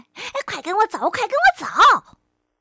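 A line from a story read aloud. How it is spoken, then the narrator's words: Excited shouting. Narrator (Chinese): 狐狸兴奋地……嚷起来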